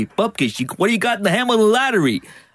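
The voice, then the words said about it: Put-on New York accent. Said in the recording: “I assimilated the New York accent.”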